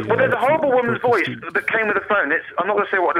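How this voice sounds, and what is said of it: Usual voice. Nothing is said of it.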